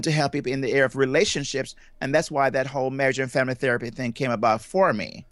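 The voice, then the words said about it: Jamaican accent. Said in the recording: “you have quite a unique accent ... I'm from Jamaica, and I grew up in Jamaica ... that's where my accent comes from”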